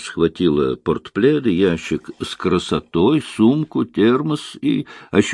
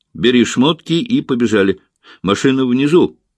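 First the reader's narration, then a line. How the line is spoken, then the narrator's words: Shout. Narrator (Russian): выкрикнула Рита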